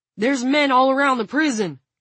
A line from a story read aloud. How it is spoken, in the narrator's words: Frank shouted